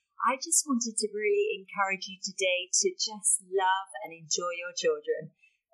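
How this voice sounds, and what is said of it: British accent. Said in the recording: “you'll probably tell from the accent that I'm from the UK”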